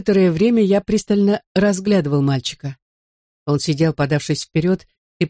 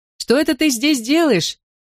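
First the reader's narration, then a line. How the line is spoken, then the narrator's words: Shouted. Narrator (Russian): крикнул я ему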